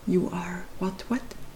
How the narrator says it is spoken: he whispered

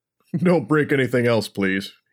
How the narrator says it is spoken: he chuckled

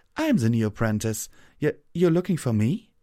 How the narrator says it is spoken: The unicorn laughed briefly

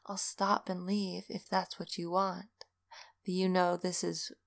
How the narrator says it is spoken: he whispered

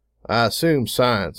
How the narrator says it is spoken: I said flatly

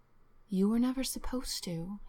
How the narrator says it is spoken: he answered, and his voice was almost as she remembered, though the growl of the wolf was still there inside it

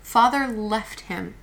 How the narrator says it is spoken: Meg cried

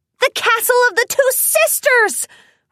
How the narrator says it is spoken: Rainbow Dash exclaimed

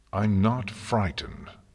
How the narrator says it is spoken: Celestia said firmly

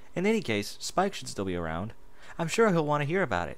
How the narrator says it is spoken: she giggled

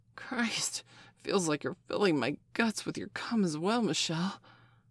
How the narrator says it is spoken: Steph gasped

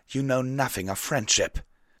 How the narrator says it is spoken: Pyre growled

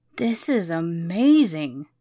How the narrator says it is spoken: he exclaimed

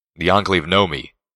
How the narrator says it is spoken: he growled despondently

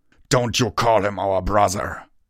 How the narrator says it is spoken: Tirado thundered

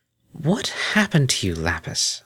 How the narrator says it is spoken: Octavia asked gently

